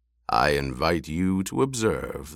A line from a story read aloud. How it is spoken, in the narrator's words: the basso voice rumbled